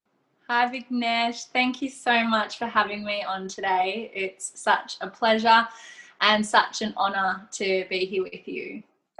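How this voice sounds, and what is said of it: Australian accent. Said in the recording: “that Aussie accent ... you can't miss the Aussie accent”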